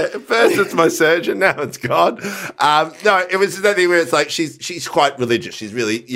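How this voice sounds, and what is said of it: Usual voice. Nothing is said of it.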